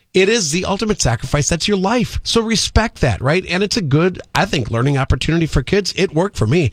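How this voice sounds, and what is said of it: Speaking too fast. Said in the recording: “I had too much coffee. That's why I'm talking too fast.”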